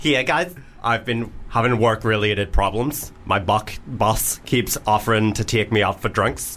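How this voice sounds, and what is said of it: Put-on Northern Irish accent. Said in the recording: “Northern Irish... Straight Northern Irish, not gay.”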